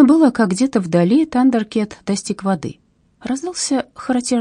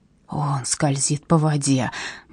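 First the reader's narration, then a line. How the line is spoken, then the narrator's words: Awed whisper. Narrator (Russian): благоговейно прошептал кто-то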